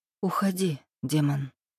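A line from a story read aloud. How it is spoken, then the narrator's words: Calm. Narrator (Russian): спокойно произнесла она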